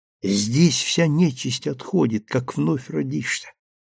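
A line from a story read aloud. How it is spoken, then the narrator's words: Quiet reply. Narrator (Russian): тихо ответила Анна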